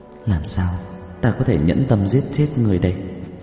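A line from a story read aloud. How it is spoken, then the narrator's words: Muttering. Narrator (Vietnamese): Dương công tử lẩm bẩm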